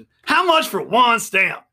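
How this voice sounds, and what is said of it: Chris Rock impression. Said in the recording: “I'm going to get you sucker Chris Rock impersonation.”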